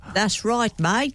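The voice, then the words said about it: Weak put-on Australian accent. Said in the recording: “you're still better at Australian accents than Pippa here. Isn't that right, Australian Pippa?”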